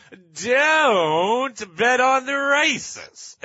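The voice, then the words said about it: Texas drawl voice. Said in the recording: “this guy with a Texas accent ... this guy in the Texas drawl”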